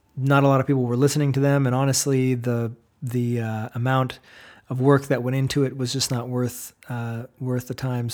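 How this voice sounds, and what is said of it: Weak, tired voice. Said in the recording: “I apologize for my voice being kind of weak right now... it's been a while since I've teached and used my voice in such a way”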